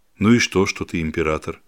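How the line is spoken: Calm question. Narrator (Russian): спокойно спросил серебряник

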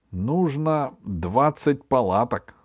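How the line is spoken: Plain. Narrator (Russian): сказал Сергей

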